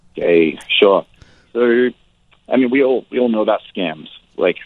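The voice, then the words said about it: Congested voice with a cold. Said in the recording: “if it sounds like I've got a cold, it's because I've got a bit of a cold.”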